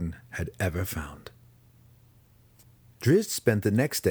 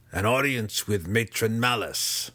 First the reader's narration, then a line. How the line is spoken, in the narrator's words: she said grimly